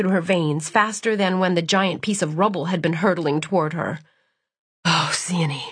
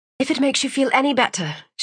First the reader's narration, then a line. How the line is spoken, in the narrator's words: she murmured